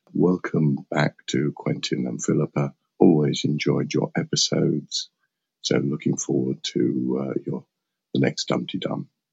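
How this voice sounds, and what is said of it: Hoarse voice. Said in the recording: “A little bit of a hoarse voice. So I've got a bit of bronchitis or something.”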